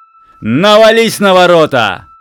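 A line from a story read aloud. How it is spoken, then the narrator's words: Shouted command. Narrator (Russian): выкрикнул Платон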